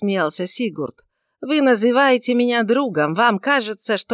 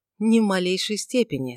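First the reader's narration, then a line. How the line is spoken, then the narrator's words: Calm reply. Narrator (Russian): спокойно ответил Эрингтон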